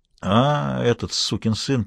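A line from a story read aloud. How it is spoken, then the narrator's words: Drawling. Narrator (Russian): протянула Лоретта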